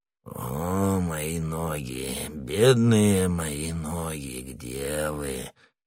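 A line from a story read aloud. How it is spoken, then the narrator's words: Mumbling. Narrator (Russian): пробормотал Кокнар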